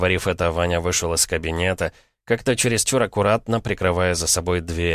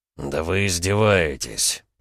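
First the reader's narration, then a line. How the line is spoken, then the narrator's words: Through gritted teeth. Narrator (Russian): процедил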